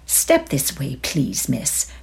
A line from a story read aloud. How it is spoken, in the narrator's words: she said in an oily voice